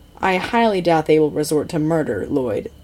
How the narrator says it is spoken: Zane says flatly

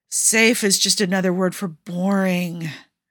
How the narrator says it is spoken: Jensen moaned

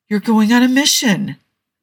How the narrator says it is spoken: Jensen exclaimed

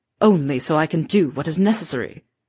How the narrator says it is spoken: he snarled

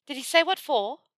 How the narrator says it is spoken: Hermione panted as she hurried to keep up

